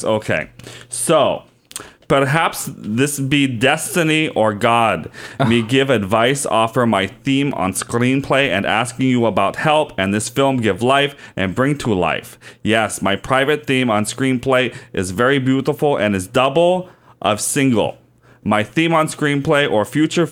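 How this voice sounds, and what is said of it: Put-on foreign accent. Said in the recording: “You're losing the accent. You gotta stay in the accent.”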